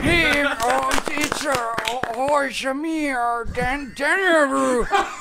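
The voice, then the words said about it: Put-on old man voice. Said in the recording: “What is this accent he's doing right now? ... Yeah, 90-year-old man.”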